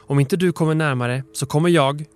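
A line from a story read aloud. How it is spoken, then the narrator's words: Shouted. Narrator (Swedish): han skrek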